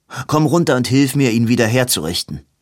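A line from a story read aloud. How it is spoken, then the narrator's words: Called out. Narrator (German): rief Edwin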